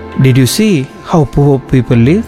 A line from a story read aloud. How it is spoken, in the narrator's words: the father asked